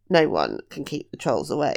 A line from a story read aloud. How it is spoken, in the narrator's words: said Halvor grimly